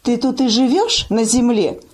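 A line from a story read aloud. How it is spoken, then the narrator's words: Plain question. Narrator (Russian): спросила Зинька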